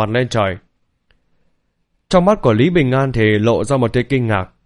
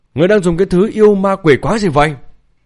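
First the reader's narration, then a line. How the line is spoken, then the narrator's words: Panicked shout. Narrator (Vietnamese): Lôi Bằng thì hoảng hốt quát lên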